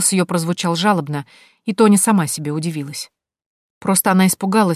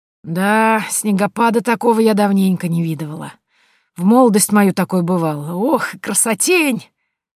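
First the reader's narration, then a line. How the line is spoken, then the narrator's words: Woman drawling wistfully. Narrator (Russian): Протянула женщина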